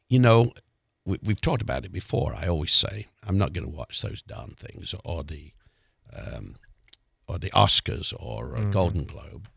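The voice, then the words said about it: Raspy voice. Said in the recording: “my voice is a little raspy ... raspy voice”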